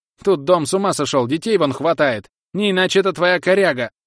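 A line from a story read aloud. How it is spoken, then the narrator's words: Shrill wailing lament. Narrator (Russian): Визгливое причитание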